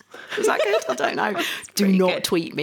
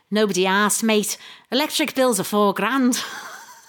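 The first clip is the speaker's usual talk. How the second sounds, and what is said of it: Bad put-on Liverpudlian accent. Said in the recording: “should I do a Liverpudlian accent ... if I do a bad one ... It was bad, I know.”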